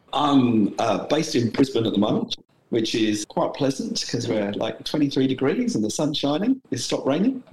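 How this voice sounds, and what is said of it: British English accent. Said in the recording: “as you might have picked up from my accent, I'm originally from the UK”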